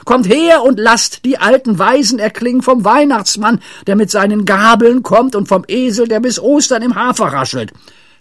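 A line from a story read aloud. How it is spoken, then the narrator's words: Shouted. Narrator (German): schrie Pippi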